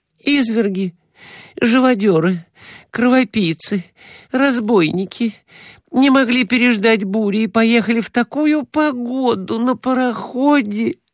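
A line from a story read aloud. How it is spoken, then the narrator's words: Moaning. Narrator (Russian): стонала Глафира Семеновна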